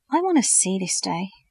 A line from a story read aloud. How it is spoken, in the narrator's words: reflected dreamily